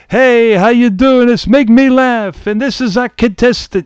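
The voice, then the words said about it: Bobby Van impression, New York accent. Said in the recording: “he has like a New York accent ... he's got more of a New York accent than I remember”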